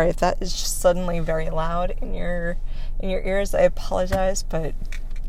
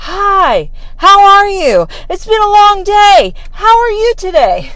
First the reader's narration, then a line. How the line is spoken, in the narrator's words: he's yelling